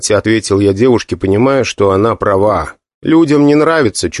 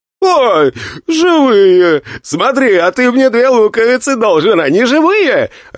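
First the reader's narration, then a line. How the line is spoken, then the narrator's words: Joyful shout, guard. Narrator (Russian): радостно крикнул один из стражников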